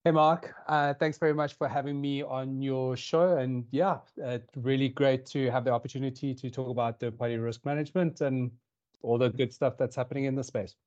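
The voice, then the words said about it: South African accent. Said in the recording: “as you can tell, or potentially tell from the accent, I'm from South Africa”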